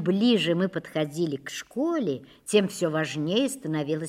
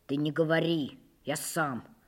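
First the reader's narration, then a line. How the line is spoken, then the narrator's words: Mumbling. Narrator (Russian): пробормотал я Катьке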